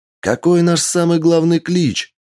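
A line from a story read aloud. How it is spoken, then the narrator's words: Girl shouting. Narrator (Russian): крикнула девушка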